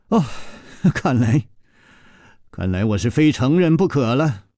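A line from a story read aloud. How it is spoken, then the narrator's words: Sighing. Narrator (Chinese): 楚留香叹了一口气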